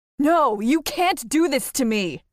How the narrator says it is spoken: cried, thrashing around

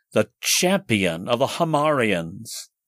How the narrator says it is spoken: cried the officer in charge of the detail

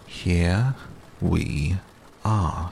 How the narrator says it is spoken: said Rabbit, very slowly and carefully

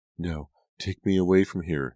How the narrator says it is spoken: Nora pleaded, her voice trembling

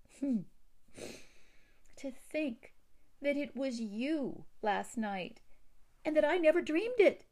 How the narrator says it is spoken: exclaimed Theodora

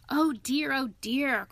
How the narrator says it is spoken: cried the rat in despair at his obtuseness

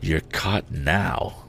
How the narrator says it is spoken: whispered Ned to Tom

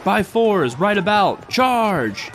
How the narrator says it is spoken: He yelled

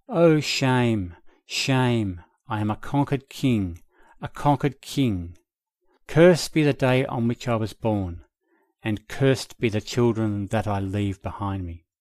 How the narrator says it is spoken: his mind became more and more excited, heard him moaning in his anguish

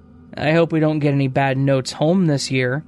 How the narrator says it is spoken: the mother said

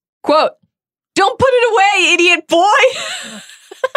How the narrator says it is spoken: She shrieked

